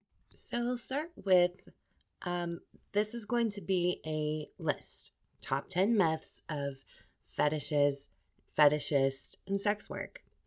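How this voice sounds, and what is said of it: Voice sounds slightly sick. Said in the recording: “sorry for my voice. I'm having a bit of a cold coming on”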